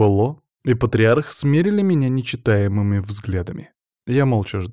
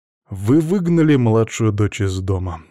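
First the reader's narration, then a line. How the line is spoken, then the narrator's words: Calm. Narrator (Russian): спокойно произнес я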